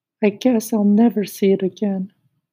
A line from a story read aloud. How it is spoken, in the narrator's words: he added wistfully